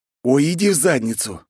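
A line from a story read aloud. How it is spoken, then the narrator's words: Agonized groan. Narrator (Russian): мучительно застонал я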